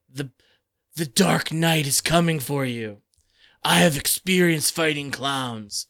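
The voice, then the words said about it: Gravelly Batman character voice. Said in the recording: “can't do my Batman voice for very long. It hurts my throat.”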